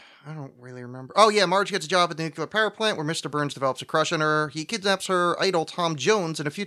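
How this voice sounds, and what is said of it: Usual voice. Nothing is said of it.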